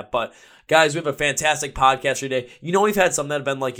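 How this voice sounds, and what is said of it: Hoarse, strained voice. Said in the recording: “my voice shot ... my voice is probably shot from, you know, screaming, unclean vocals in the pit and on the car ride home”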